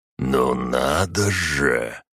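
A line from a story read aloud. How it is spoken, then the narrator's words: Wolverine, through gritted teeth. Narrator (Russian): Процедил росомаха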